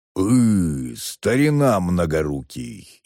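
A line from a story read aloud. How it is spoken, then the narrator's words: Low bass drawl. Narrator (Russian): низким басом протянул тот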